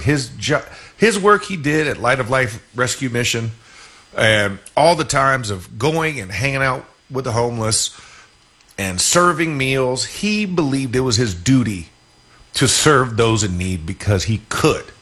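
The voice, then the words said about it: Emotional, choked-up speaking voice. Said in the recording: “getting emotional”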